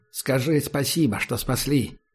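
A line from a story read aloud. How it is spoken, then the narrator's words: Quiet. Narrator (Russian): негромко сказал майор из СМЕРШа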